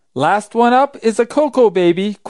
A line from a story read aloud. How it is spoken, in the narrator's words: cried Raggedy Ann